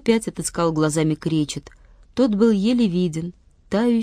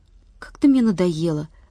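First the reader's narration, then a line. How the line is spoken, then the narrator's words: Sighing. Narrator (Russian): вздохнул Владик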